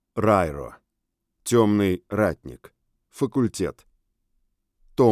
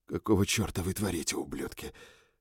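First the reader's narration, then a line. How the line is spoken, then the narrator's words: Whispered question. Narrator (Russian): шепотом спросил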